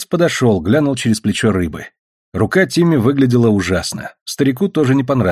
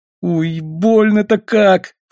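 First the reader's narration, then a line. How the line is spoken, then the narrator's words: Sobbing. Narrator (Russian): всхлипнул Тимми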